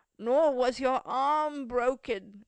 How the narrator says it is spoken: groaned the old man

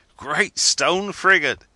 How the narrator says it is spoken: he exclaimed, as he burst into a laugh

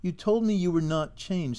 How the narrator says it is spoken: said my companion

